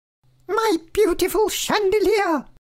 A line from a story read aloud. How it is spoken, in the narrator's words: She cried